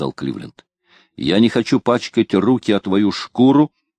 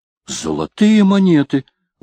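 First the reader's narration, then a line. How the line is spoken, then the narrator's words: Exaggerated astonished exclamation, peddler. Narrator (Russian): воскликнул разносчик нарочито повышенным тоном, долженствовавшим выражать крайнюю степень изумления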